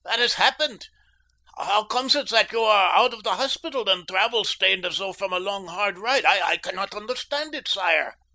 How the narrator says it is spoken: cried the old fellow

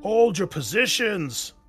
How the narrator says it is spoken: bellowed Block, though his voice was beginning to crack

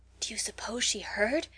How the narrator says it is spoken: whispered Mary Silver

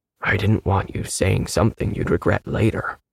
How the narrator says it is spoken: I whispered

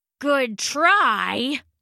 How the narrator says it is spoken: Hari grunted

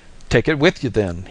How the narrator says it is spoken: he laughed

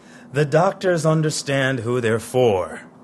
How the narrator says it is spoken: He snorts and says

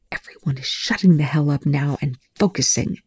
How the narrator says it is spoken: Telford hissed, as the dark closed in around them

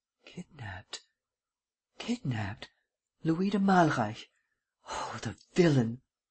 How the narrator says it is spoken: muttered

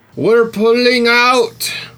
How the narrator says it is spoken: MZ roared, having watched half their crew slain

